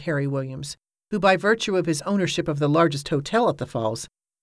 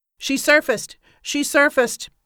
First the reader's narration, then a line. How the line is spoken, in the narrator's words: Bill Hillgrove shouted